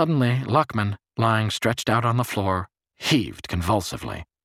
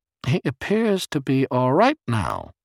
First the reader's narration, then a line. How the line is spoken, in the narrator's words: Barris said smoothly into the phone